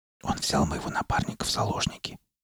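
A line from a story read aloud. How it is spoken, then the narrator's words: Whisper. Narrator (Russian): шепотом ответила Скалли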